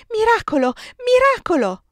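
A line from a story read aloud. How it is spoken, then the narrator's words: Crying and shrieking. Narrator (Italian): si mise a piangere, a strillare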